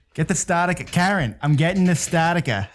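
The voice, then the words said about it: Put-on Boston accent. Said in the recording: “Fucking Bostonian accents, dude. It's awesome.”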